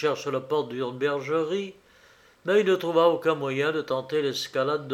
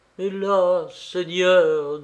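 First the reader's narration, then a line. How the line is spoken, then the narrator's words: Trembling voice. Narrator (French): dit Pierrot d'une voix tremblante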